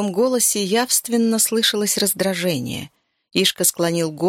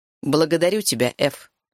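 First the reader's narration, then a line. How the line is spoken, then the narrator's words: Plain. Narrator (Russian): сказал он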